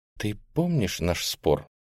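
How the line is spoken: Quiet. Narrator (Russian): она тихо сказала

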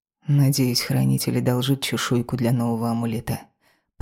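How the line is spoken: Mutter under breath. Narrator (Russian): пробормотал Алекс себе под нос

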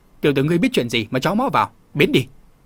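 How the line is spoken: Glaring angry shout. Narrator (Vietnamese): Một tên trợn mắt quát

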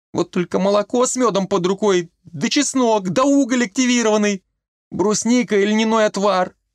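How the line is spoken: Sobbing. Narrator (Russian): всхлипнула она

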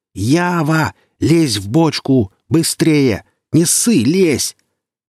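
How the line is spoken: Yelling at top of lungs. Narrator (Russian): сталкер заорал во все горло

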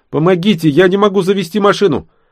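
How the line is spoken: Girl shouting with forced smile. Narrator (Russian): Девчонка изобразила улыбку, помахала и крикнула

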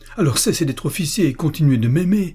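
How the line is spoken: Shout. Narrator (French): cria Lucienne

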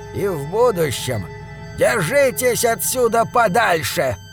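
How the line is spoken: Said rudely. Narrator (Russian): грубо сказала она

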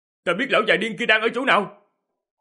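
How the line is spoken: Loud shout from behind. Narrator (Vietnamese): Diệp Hàm ở phía sau hét lớn

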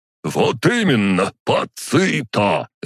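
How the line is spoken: Barked. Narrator (Russian): рявкнул тот

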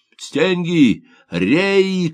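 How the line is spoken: Shouting. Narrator (Russian): кричал Лисовский

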